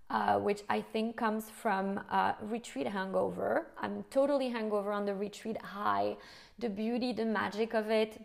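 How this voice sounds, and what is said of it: Hoarse, fading voice. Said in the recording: “As you can hear, I'm kind of losing my voice”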